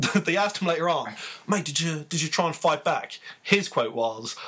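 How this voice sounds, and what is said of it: Usual voice. Nothing is said of it.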